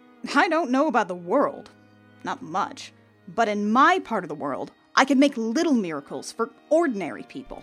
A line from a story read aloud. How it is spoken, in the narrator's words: Granny replied sharply